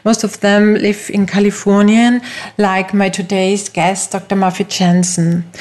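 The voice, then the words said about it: Austrian German accent in English. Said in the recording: “I am from Austria ... My first language is German and you can hear from my accent that I'm not from the USA”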